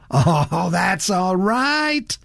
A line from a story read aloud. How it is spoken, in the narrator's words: Rudge laughed